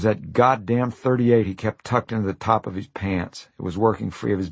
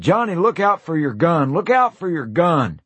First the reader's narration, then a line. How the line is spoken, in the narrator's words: I shouted